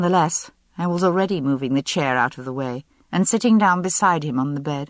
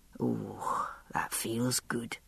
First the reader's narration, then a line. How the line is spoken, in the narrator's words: murmured